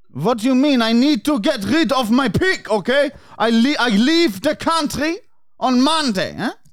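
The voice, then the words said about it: Put-on foreign accent. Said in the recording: “my accent”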